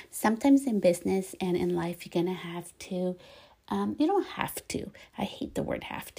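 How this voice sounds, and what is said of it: Soft, near-whispered voice. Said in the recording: “if you hear my voice like a little like whispering”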